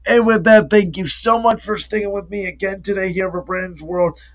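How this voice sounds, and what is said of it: Low-energy voice, feeling unwell. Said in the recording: “I'm a little bit under the weather, so I apologize for the lack of energy, the lack of urgency”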